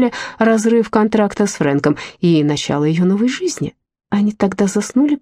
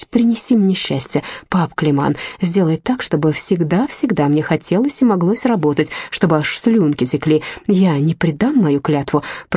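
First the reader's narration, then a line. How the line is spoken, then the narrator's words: Sleepy whisper. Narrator (Russian): прошептала Гортензия перед тем, как уснуть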